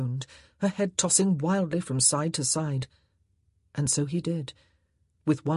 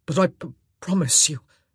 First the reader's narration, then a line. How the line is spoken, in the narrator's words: he whispered hoarsely